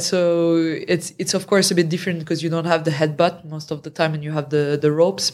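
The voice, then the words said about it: French accent. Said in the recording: “My French accent.”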